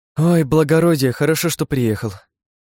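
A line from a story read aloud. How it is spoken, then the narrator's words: Weary sigh. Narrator (Russian): вздохнула она, устало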